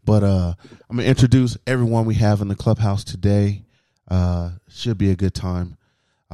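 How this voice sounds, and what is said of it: Slightly raspy voice. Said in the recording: “My voice might be a little raspy,”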